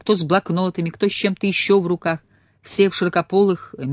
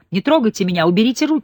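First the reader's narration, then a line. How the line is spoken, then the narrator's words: Screaming rescued woman. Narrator (Russian): кричала спасенная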